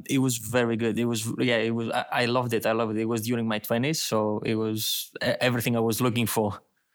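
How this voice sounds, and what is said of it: Slight Greek accent. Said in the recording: “you have a slight accent. Being Greek ... I might just lost my Greek accent a bit”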